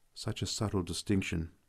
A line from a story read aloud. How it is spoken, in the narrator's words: I murmured